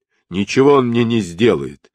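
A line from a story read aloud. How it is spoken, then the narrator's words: Plain. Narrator (Russian): ответил Джубадзе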